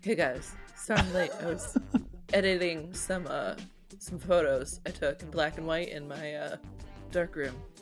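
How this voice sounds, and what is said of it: Imitates another person's voice. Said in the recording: “My Phil impersonation is ... it's hard to anywhere close to a real impersonation of him.”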